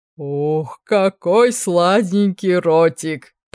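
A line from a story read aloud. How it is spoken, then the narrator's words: Growling. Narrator (Russian): прорычал мужичок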